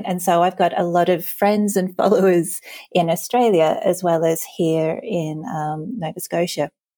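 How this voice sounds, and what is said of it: Australian accent. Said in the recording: “I'm Australian by birth, and I've got quite the accent.”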